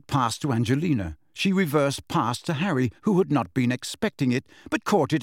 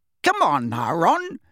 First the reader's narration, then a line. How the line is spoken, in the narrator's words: said Angelina crossly